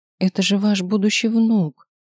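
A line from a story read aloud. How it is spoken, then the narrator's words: Broken voice. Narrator (Russian): надломленным голосом вымолвил я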